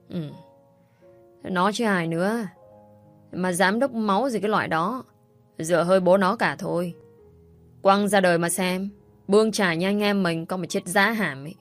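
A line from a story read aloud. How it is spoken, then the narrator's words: Slurred drawl. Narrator (Vietnamese): Người khác thêm vào bằng giọng lè nhè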